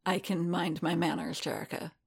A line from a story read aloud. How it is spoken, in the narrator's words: Boba murmured